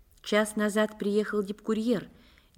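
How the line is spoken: Quiet. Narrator (Russian): негромко сообщила Скрыпник

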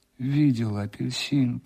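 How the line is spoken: Moaning. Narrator (Russian): простонал он

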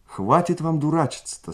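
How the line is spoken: Stern yet affectionate. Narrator (Russian): строго, ласково сказала

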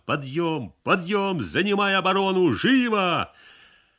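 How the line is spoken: Shouting. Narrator (Russian): Ионов кричал

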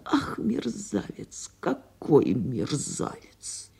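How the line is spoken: Muttering. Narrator (Russian): Она бормотала

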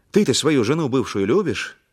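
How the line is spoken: Angry. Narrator (Russian): говорю зло

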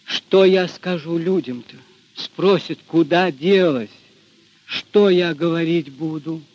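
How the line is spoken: Plain. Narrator (Russian): спросила Дуняшка

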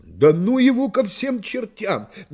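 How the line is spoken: Unrestrained exclamation. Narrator (Russian): не удержавшись, воскликнул Пенкроф

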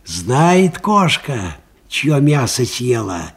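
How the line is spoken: Quiet. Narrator (Russian): негромко сказал Аниськин

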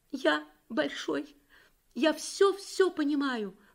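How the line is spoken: Sobbing five-year-old child. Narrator (Russian): рыдал пятилетний Юрик

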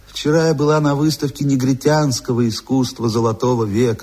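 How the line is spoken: Melodious, rolling voice. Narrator (Russian): сообщила она своим певучим голосом, раскатывая звонкое

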